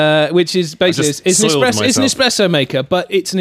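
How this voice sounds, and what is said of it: Usual voice. Nothing is said of it.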